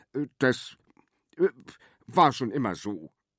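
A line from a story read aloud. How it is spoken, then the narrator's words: Stammered. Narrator (German): stammelte er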